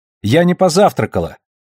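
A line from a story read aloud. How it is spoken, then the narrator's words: Shouted, normal voice. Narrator (Russian): выкрикнула Тереза уже своим обычным голосом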